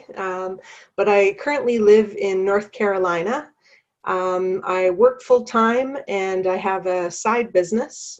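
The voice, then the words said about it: Canadian accent. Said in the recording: “if you hear a Canadian accent, that's why”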